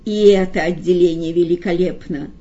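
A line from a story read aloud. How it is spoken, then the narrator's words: Solemn. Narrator (Russian): торжественно признал Коровьев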